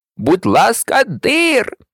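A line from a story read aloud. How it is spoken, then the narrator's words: Joyful exclamation. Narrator (Ukrainian): радісно вигукнув Дамблдор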